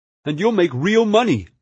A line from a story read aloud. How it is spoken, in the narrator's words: Murray cried